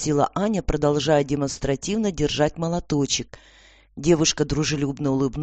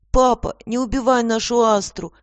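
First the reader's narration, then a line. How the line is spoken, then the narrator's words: Tearful boy repeating. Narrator (Russian): сквозь слезы повторял мальчик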